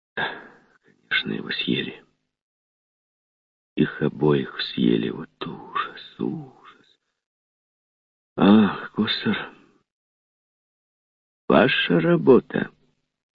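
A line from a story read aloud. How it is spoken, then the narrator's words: Menacing question. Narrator (Russian): грозно вопросил Костер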